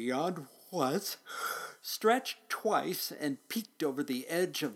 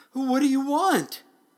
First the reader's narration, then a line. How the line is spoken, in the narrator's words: The driver, just as frightened as could be, cried out